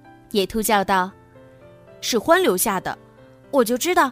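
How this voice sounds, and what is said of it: Usual voice. Nothing is said of it.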